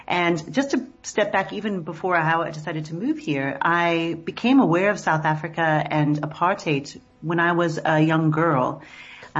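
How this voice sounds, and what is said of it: American accent. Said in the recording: “as you can hear from my voice, I was originally born and raised in the United States”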